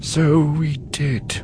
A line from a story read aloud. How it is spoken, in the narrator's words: Ki-Adi-Mundi said, his voice laden with regret